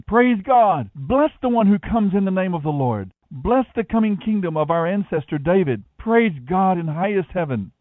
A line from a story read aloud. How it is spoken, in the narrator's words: the crowds all around him were shouting